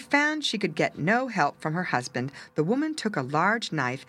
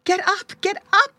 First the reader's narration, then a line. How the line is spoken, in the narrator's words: cried